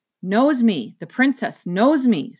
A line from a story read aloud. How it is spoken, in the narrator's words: said the roach in awe